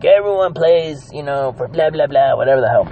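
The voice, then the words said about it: Poor imitation of another person's voice. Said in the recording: “terrible John Gruden impression”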